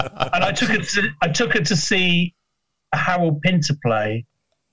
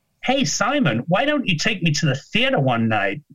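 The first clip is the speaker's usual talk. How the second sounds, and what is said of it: Impression of an American friend. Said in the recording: “That's a really good impression.”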